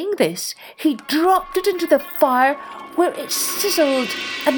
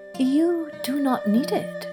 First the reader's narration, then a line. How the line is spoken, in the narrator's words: said the hermit quietly